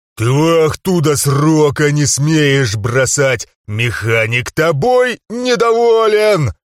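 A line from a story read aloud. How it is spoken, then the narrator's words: Growling. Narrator (Russian): рычал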